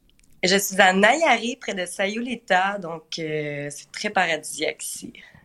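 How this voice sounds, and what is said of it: Sing-song regional French accent. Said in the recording (French): “tu as l'accent qui chante là”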